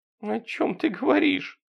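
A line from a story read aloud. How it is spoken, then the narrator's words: Whimpering question. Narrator (Russian): хныкая спросила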